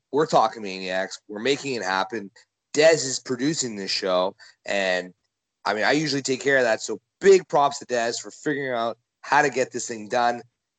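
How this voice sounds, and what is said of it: Hoarse, partly lost voice. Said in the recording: “I lost my voice uh, on day two of this trip”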